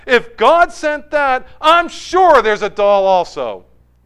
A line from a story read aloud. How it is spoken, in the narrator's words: the girl who had given the prayer with such earnesty started digging deeper and exclaimed out loud